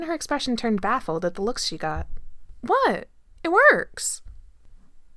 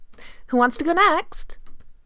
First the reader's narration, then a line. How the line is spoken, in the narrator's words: Jane asked brightly